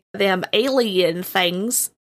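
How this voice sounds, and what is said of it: Bad put-on Southern accent. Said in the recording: “You can do the Southern accent better than me. ... No, that was horrible. My apologies to the South. Sounded like Forrest Gump.”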